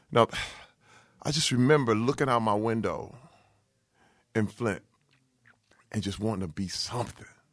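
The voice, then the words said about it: Emotional, choked-up speech. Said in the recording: “I'm I'm actually getting emotional right now”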